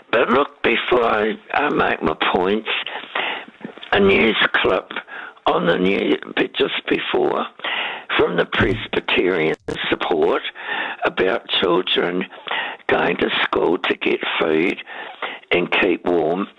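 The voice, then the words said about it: Unwell, strained-sounding voice. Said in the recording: “Well, my voice isn't, but I am.”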